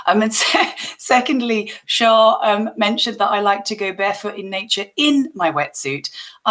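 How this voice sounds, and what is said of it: Hoarse, strained voice. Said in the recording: “I actually lost my voice yesterday, so I'm hoping my voice is going to be okay”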